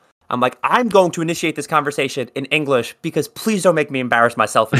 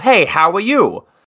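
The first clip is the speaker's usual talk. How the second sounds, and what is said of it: Exaggerated New York accent. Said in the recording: “in my most New York accent”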